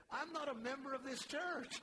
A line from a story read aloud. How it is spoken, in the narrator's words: The man laughed out loud, and he said